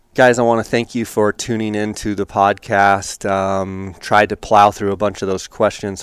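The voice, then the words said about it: Slightly crackly voice. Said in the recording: “my voice is getting a little crackly here”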